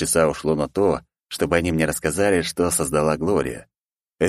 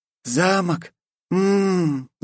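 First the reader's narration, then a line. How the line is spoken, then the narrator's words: Moaning. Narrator (Russian): застонала Глория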